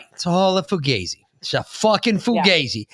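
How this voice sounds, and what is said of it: Poor put-on New York accent. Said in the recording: “you're not allowed to do a fucking New York accent anymore. It was pretty shitty.”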